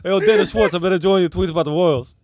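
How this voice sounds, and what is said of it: Impression with soft, hanging R's. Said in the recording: “the impression that I absolutely nail when I try it? It was my RZA ... That was pretty good ... He's got a bit of a speech impediment. He has a soft R. Hanging R's.”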